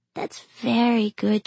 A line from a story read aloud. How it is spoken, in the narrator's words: she said in her tired voice